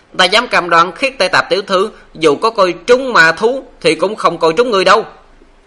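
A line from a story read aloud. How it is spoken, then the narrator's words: Loud shout. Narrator (Vietnamese): lớn tiếng la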